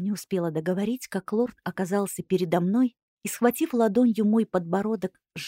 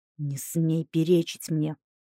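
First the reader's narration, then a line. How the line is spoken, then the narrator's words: Hiss. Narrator (Russian): прошипел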